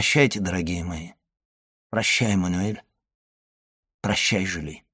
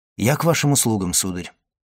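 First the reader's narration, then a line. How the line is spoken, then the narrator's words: Plain. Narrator (Russian): сказал Максимилиан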